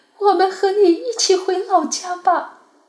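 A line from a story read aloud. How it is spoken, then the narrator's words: Loud wailing. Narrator (Chinese): 两个儿媳妇放声大哭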